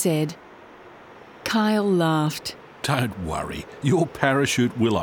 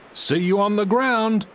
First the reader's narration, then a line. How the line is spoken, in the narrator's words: shouted Kyle